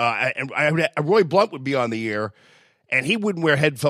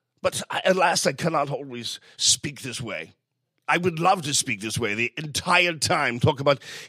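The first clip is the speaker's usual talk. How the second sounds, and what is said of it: Put-on regal king's accent. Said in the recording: “I'd love to use the king's accent for you, my dear”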